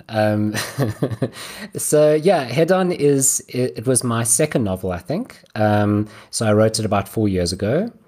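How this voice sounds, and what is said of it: South African accent. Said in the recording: “just the difference in parts of the accents ... Those are very South African.”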